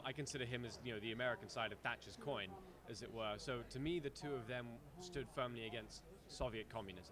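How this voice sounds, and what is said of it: British accent. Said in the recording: “as you can tell from my accent, I'm from the United Kingdom”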